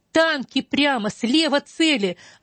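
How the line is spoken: Young soldier screaming in pain. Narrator (Russian): молоденький солдатик закричал, словно от боли

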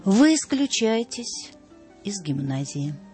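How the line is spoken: Cold and calm. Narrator (Russian): проговорил холодно и спокойно директор

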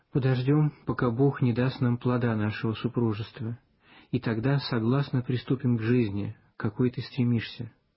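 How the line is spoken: Gentle, tender. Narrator (Russian): ласково сказал

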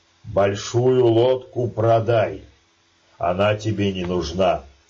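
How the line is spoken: Stern. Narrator (Russian): строго сказал Илья

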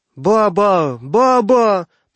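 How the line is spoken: Shrill child's cries. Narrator (Russian): продолжала покрикивать визгливым голосом малютка

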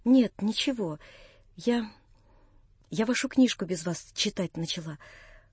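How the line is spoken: Said in an undertone. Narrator (Russian): проговорила она вполголоса

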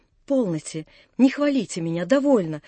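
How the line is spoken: Embarrassed whisper. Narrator (Russian): шептала в смущении Наташа

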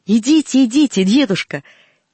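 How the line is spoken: Shout. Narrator (Russian): крикнула Галинка

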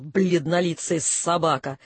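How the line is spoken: Teasing hiss. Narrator (Russian): Явно дразня прошипел

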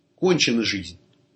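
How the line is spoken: Suddenly clear speech. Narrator (Russian): будто проснувшись, лицо его прояснилось, он сказал

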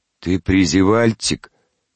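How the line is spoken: Deep bass voice. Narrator (Russian): повторила басом Гулька

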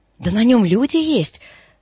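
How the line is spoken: Exclaimed. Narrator (Russian): воскликнул Торчаков

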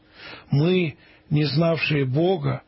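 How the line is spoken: Plain. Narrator (Russian): ответил череп

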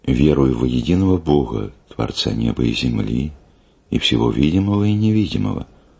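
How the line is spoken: Trembling voice proclaiming. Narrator (Russian): дрожащим голосом обвещает

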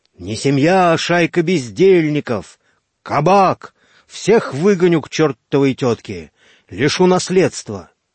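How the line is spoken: Hoarse shouting. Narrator (Russian): его сиплые крики

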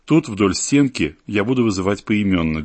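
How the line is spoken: Plain. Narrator (Russian): говорит чекист

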